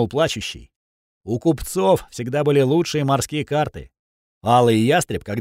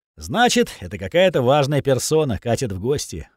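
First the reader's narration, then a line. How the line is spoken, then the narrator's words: Sighing. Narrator (Russian): вздохнул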